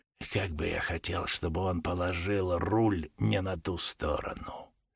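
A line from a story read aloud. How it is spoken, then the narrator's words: Whisper. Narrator (Russian): шепотом произнес Джордж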